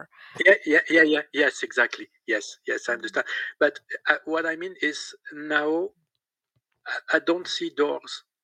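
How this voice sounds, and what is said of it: French accent. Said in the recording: “everybody must know I'm French with my accent”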